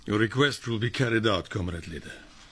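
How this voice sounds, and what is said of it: Put-on Russian accent. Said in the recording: “use your Russian accent”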